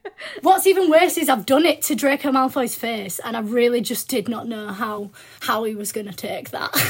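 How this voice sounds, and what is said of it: Usual voice. Nothing is said of it.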